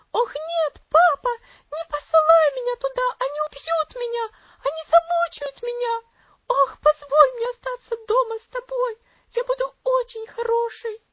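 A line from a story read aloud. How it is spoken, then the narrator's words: Wild frightened scream. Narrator (Russian): Элси вздрогнула и дико закричала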